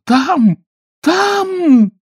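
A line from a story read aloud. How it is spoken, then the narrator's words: Desperate scream. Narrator (Russian): отчаянно закричала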